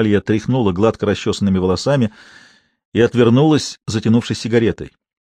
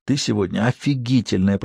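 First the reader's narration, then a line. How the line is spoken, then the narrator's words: Whispered. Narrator (Russian): прошептал он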